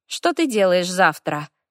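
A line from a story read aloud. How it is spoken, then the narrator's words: Thoughtful question. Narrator (Russian): задумчиво интересуется Свела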